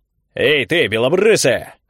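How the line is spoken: Barked. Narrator (Russian): рявкнул один из инквизиторов

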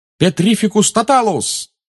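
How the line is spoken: Shouted. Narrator (Russian): выкрикнул Гарри

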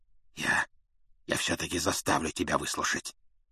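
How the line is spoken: Hoarse. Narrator (Russian): хрипло проговорил он

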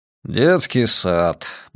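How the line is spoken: Muttered, suppressing smile. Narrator (Russian): буркнул старший агент, пытаясь подавить невольную улыбку

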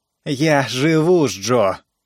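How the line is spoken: Angry, curt. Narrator (Russian): зло бросила Пат

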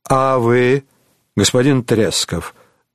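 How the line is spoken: Calm question. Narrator (Russian): спросил он спокойно

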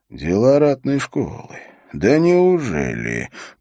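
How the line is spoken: Low menacing voice. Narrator (Russian): произнес Холт, грозно понизив голос

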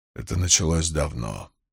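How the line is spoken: Quiet remark. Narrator (Russian): тихо заметил Руарк

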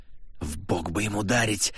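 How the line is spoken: Hissing. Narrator (Russian): прошипела Валькирия

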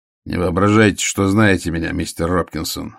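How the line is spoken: Grumbling. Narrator (Russian): ворчал Ваймс

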